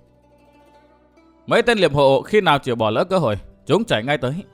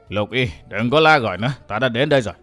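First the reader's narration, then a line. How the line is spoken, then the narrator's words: Old woman's hoarse voice. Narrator (Vietnamese): Thanh âm khàn khàn của một lão bà đáp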